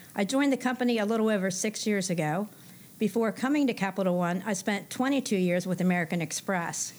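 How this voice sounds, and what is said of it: Pennsylvania accent. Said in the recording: “I'm originally from Pennsylvania. You can probably tell by my accent”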